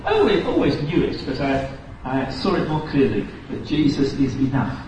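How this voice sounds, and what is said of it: British accent. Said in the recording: “if you can tell by his accent, he's British.”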